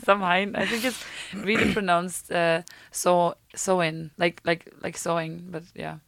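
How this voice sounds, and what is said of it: Put-on Scottish accent. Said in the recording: “my Scottish accent that I really don't have”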